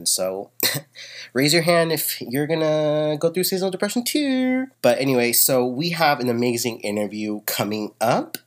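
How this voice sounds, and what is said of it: Congested nasal voice. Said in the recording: “if you can tell by my voice, I'm a little congested ... because of these fucking allergies”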